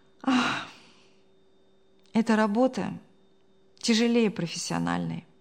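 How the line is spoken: Sighing. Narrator (Russian): вздохнула Мария

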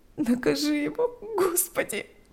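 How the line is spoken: Sobbing. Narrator (Russian): рыдала она

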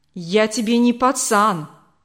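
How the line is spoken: Snapping. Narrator (Russian): огрызнулся он

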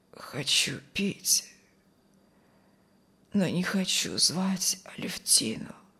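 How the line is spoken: Hoarse wheeze. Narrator (Russian): прохрипел Алексей

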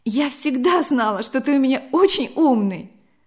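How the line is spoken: Exclamation. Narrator (Russian): воскликнула Вера

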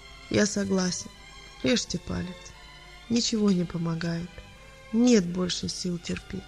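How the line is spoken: Quiet, weary. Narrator (Russian): устало ... тихо сказал

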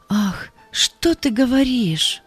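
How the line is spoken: Sad. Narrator (Russian): сказала Галя печально

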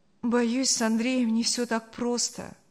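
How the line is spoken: Sad. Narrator (Russian): грустно сказала Саша

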